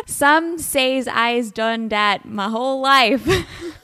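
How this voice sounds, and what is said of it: Attempted Southside Chicago accent. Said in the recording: “I am terrible at accents... I can do a Southside Chicago accent. So, I don't know if this is good.”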